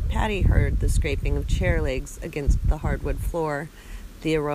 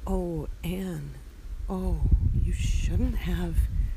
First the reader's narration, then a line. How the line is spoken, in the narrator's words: Patty whispered in a rough voice